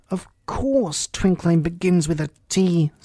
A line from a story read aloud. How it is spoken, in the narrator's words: said the King sharply